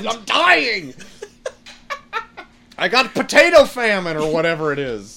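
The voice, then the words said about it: Put-on Irish accent. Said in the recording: “You got infected with an Irish accent ... You got Irish accent poisoning.”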